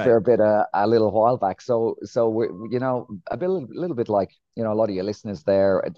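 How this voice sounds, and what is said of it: Irish accent. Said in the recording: “you can tell by the accent there. I'm not from Australia. I'm from a place called Ireland.”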